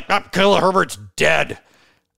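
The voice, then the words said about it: Impression of Thor. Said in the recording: “good Thor impression”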